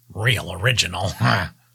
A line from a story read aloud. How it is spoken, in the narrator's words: chuckled